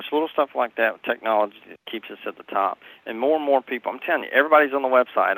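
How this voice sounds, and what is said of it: Southern US accent, Tennessee. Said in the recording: “I'm from the South... I'm born and raised in Nashville, Tennessee. My accent's not going anywhere.”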